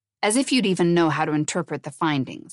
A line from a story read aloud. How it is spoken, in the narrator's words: he said sharply